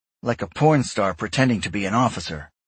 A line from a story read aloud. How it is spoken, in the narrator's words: Grayson snapped